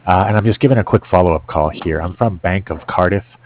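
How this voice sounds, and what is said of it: Strained, failing voice. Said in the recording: “excuse me, I'm losing my voice here.”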